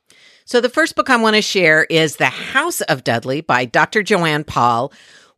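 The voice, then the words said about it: Slightly scratchy voice. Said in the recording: “my voice is a bit scratchy”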